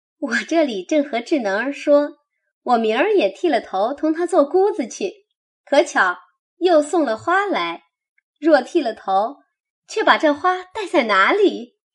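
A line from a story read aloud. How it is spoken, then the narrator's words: Teasing, laughing. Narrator (Chinese): 说着大家取笑一回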